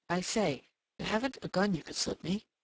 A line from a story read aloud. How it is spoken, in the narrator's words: agitated whisper